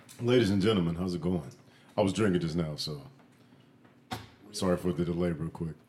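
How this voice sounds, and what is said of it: Put-on radio announcer voice. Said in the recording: “You put the voice on everything. ... The radio voice.”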